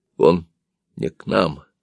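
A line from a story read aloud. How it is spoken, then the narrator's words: Clipped, syllable by syllable, panting. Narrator (Russian): сказал я отрывисто, чуть не по слогам, и учащенно задышал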